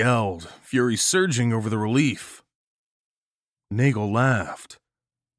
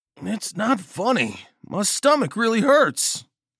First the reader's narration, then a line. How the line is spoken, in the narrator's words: John groaned